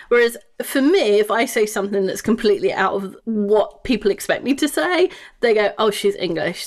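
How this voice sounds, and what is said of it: English accent. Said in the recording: “the whole English accent thing going, which just makes you sound smarter”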